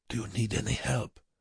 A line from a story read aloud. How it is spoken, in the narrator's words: Bruckmann asked Wernicke in a low voice